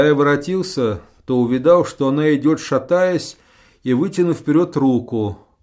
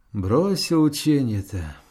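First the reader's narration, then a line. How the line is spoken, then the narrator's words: Quiet questioning. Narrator (Russian): она тихонько спрашивала меня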